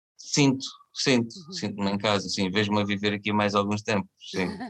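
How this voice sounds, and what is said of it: Alentejo Portuguese accent. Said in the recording (Portuguese): “não perdeste nada do sotaque? ... Nada, nada ... o Alentejanito”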